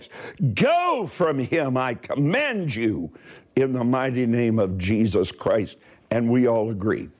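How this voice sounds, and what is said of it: Raised, shouting voice. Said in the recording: “I'm going to raise my voice.”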